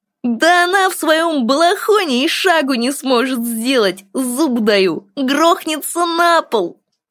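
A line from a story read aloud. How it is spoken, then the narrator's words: Loud laughter. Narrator (Russian): Теперь уже во весь голос хохотал он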